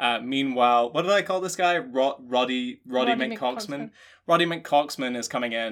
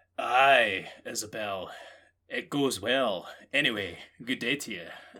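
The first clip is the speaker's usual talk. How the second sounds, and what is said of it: Mixed Scottish and American accent. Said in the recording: “he's got like a mixture of like a Scottish and American accent”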